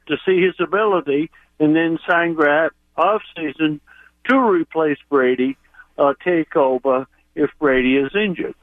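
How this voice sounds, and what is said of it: Maine accent with slight twang. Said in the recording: “the real Maynard accent even has a little twang to it”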